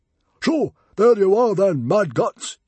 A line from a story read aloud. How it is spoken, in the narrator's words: yelled Stoic the Vast